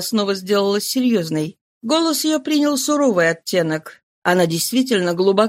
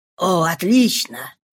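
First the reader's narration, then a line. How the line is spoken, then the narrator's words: Flustered mutter. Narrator (Russian): пробормотал граф все еще не оправившись от волнения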